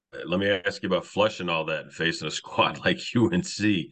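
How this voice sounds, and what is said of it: Impaired, unwell-sounding voice. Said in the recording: “Apologize for my voice”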